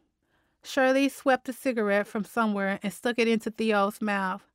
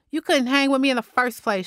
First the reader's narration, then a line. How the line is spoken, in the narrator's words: Shirley snapped